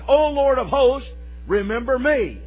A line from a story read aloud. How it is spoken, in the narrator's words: Hannah, in her childless state, cried